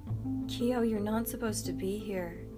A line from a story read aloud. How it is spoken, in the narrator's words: cooed soothingly